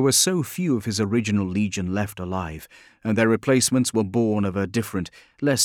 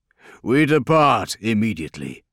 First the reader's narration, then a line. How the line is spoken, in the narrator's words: he said, his voice uncompromising